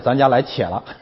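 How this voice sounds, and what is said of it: Put-on Northeastern Chinese dialect. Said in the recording (Chinese): “用东北话来说”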